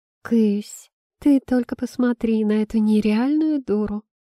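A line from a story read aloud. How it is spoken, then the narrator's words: Mocking drawl. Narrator (Russian): насмешливо протянул знакомый голос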